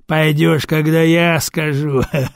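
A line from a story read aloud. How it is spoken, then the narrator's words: Chuckling. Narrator (Russian): хохотнул Кирк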